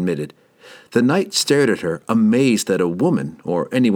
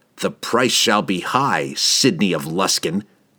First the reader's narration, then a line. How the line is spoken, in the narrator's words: he snarled